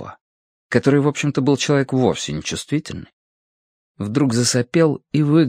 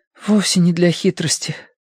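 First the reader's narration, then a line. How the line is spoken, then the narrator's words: Sincere breathy words. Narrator (Russian): честно выдохнул Нотка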